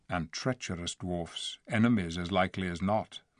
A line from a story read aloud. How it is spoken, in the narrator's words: muttered Tyrion